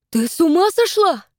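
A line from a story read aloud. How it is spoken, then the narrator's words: Indignant exclamation. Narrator (Russian): воскликнула Ирмелин с негодованием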